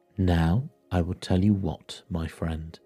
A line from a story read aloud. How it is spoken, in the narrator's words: said Scrooge